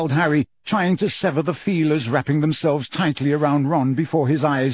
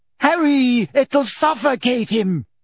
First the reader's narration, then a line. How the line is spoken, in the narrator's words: screamed Ginny, immobilized by her broken ankle